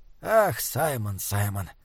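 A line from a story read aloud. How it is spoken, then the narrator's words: Soft laugh. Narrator (Russian): тихо засмеялся доктор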